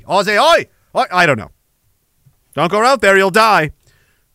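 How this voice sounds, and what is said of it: Put-on Australian accent. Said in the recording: “Once I stick with one accent, I can't get out of it. Australia. Aussie.”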